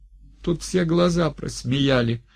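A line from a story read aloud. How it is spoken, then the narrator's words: Speaking through tears. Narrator (Russian): сквозь слезы выговаривала Клавдия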